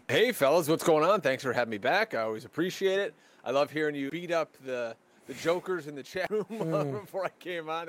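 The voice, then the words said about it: Polished, resonant radio voice. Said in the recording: “This guy has a sensational radio voice.”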